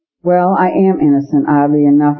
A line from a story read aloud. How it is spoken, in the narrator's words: he said